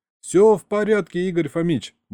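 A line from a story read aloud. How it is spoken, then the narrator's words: Cheerful reply. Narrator (Russian): бодро ответил Саня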